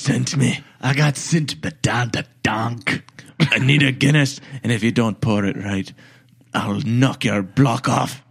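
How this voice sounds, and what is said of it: Put-on Irish accent. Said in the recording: “In an Irish accent.”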